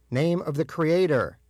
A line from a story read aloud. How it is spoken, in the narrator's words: he shouted again